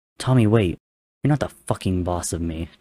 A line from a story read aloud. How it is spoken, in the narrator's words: Tommy spat, lacing his words with venomous anger